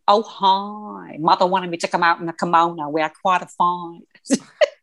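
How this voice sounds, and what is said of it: Imitates another person's accented voice. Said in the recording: “Her accent... being Edie Beale”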